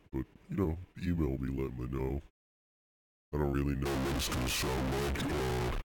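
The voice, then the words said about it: Congested, stuffy-nosed muffled voice. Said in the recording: “I have a cold. I've stopped up. My nose is stopped up. It's all stuffed up, so my voice might sound a little, like, muffled”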